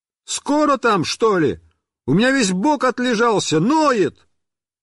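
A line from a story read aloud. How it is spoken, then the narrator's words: Fed-up yell from barrel. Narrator (Russian): мне надоело, и я заорал из бочки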